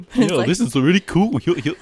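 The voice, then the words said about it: Imitates Goofy cartoon voice. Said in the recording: “that impression... I can't do Goofy.”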